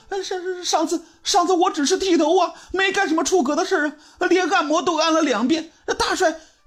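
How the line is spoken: Crying. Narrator (Chinese): 这小豆子呢，哭着说

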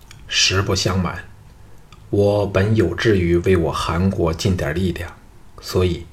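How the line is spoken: Deep, grave. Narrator (Chinese): 藤毅 沉声说

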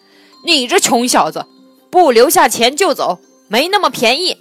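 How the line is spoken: Loud harsh shouting. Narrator (Chinese): 饭店掌柜大声贼喝

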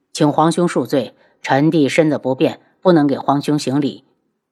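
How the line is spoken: Calm, indifferent. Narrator (Chinese): 轩辕志 淡淡的开口

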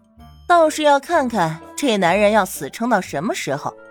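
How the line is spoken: Flat, cool question. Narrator (Chinese): 唐宁淡淡的问道

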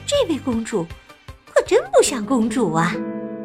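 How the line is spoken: Soft muttering young woman. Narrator (Chinese): 年轻姑娘小声嘀咕着

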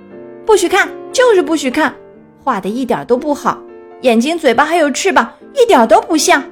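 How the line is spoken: Loud yelling. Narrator (Chinese): 他对小鸭大声嚷道

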